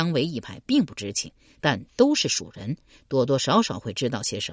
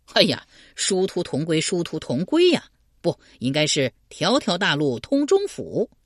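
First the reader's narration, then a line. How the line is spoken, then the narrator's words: Laughing. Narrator (Chinese): 刘玲笑道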